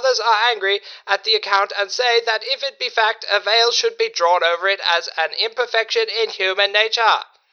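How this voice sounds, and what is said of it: Annoying droning old-fashioned newsman voice. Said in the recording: “Give me a rank out of 10 for the voice. ... that annoying drone. ... Such an annoying way of speaking. ... You don't even maintain it. ... good impression”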